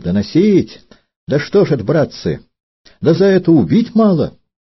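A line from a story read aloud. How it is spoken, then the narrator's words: Cowardly, thin-voiced shouting. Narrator (Russian): трусливо семенил в круг сцепившихся и тонким голосом покрикивал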